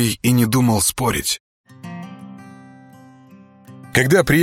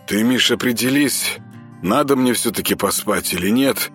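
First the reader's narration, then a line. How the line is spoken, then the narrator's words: Sleepy grumble. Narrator (Russian): сонно проворчал Артем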